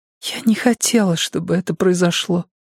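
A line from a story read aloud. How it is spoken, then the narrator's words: Whisper. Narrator (Russian): прошептала Джуди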